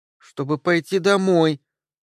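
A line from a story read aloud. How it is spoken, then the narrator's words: Girl's thin little voice. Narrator (Russian): тоненьким голоском произнесла девочка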